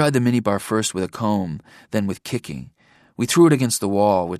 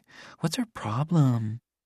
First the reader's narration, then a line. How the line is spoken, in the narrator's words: Callista was whispering to Link